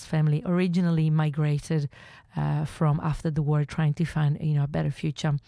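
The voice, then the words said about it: Italian accent. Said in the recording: “I was actually born there, as you can hear from my accent”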